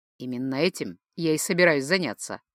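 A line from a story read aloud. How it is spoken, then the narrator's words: Snorting. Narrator (Russian): хмыкнул тот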